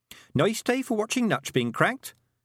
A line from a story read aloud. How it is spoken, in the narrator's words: said Tiffany cheerfully